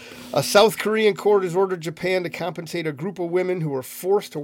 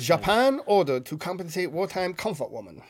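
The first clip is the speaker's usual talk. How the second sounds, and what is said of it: Put-on Japanese accent. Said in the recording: “Read it with like a Japanese accent.”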